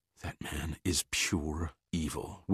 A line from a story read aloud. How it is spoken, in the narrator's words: whispered Kelly, fear in her eyes